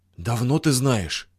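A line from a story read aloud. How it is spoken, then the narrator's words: Hoarse question. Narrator (Russian): хрипло спросила Паша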